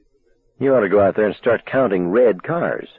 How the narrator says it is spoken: Arnie said coldly

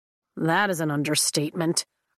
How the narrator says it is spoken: Riddick mumbles under his breath

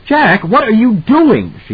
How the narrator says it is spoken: she asked, a little hysterically

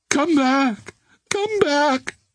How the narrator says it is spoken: she wailed

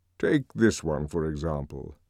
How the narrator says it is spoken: said, and in his deep voice

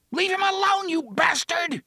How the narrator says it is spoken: Jake screamed

